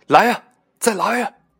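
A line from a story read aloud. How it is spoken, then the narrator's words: Excited yet trembling. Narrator (Chinese): 钟大的声音听起来有点亢奋，但同时也有点颤抖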